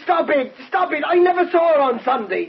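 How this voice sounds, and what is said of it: Shouting. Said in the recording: “You don't have to shout. You can lie just as well in a quiet voice.”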